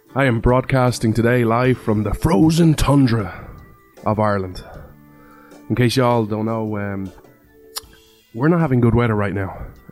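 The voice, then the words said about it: Irish accent. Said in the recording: “This Irishman ... you come for the accent”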